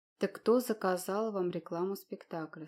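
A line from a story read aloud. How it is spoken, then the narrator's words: Plain question. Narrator (Russian): снова спросил первый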